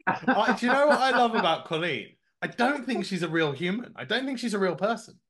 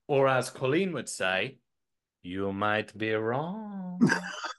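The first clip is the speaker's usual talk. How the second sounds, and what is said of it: Bad put-on German accent. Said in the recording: “That was the worst German accent I think I've ever heard.”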